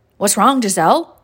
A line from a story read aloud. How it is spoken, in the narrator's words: he asked in a worried tone